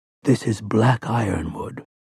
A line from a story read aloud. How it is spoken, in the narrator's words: Roland whispered